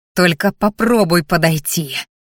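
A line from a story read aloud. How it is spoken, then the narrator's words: Growled. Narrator (Russian): рыкнула я на перепугавшуюся сестрицу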